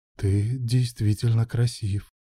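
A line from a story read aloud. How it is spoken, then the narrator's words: Murmur. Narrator (Russian): пробормотал Илья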